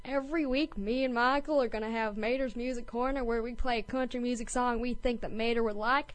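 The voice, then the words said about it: Imitated cartoon character voice. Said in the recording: “doing a Mater impression”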